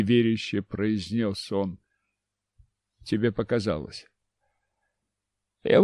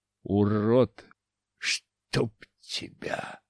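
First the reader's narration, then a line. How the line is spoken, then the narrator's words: Hoarse wheeze. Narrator (Russian): захрипел снова воскрешенный Дашко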